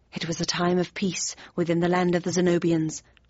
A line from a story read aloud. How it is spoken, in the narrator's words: I took a deep breath, grabbed the outstretched hand, and muttered quickly